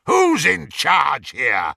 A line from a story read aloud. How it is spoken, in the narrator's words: roared Greyback, covering his moment of inadequacy